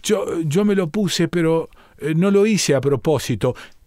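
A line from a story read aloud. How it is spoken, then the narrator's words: Stammering. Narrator (Spanish): balbucea Delfina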